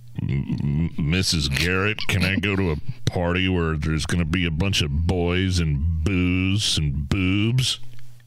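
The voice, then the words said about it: Very deep character voice. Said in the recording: “you in a very deep voice, because Joe had a deep voice”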